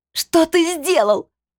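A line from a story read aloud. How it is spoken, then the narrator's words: Shout. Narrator (Russian): прокричала я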